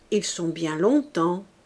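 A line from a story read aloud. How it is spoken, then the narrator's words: Plain. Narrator (French): dit Fantine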